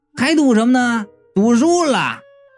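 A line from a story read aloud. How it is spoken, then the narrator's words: Amused shouting. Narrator (Chinese): 我一下子就乐了，冲着车窗外就喊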